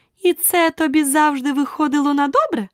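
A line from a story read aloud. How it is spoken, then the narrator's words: Queen's triumphant exclamation. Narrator (Ukrainian): переможно вигукнула королева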